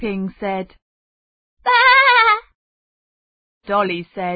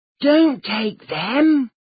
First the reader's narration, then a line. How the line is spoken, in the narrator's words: Xiaoping whispered quickly